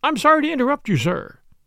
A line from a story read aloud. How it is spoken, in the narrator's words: she said